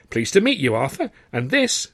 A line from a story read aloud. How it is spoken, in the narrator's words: exclaimed